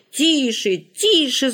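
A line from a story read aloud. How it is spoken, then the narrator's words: Children shouting together. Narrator (Russian): закричали Коля, Оля, Галя, Валя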